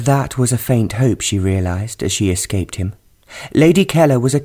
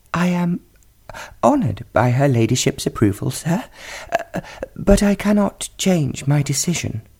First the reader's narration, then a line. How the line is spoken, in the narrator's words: Selina choked back her laughter and replied in a quivering voice